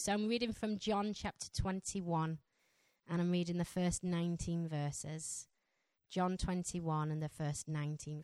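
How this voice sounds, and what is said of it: Strong Yorkshire accent. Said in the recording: “my Yorkshire accent ... my Yorkshire accent is quite strong”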